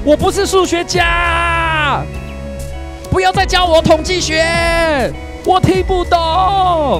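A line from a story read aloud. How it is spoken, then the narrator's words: Angry roar. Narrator (Chinese): 郭台铭对着大家怒吼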